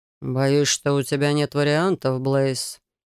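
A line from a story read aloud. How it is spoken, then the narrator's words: Low voice. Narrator (Russian): произнес незнакомец низким голосом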